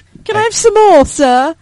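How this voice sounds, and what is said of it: Put-on British accent. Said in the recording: “that British accent”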